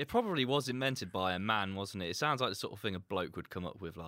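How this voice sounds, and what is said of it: Usual voice. Nothing is said of it.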